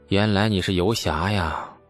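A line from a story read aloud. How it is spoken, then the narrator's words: Sudden sigh after silence. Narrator (Chinese): 李素沉默片刻，忽然叹道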